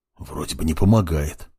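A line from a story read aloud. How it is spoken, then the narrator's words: Whisper. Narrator (Russian): прошептал Крумт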